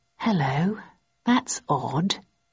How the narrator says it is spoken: I muttered

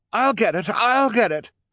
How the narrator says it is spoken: Esme cried

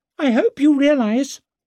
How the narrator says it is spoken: he squeaked

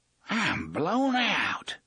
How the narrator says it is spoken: gasped

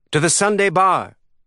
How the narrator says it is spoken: she cried

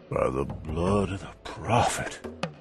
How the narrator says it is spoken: Clem gasped

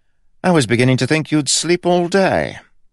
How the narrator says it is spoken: Rye said brightly

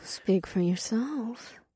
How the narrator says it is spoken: Ada purred

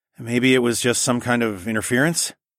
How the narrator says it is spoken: Adhara sighed

